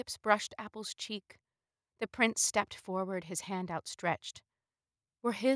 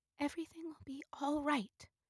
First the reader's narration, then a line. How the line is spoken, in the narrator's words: Rose said softly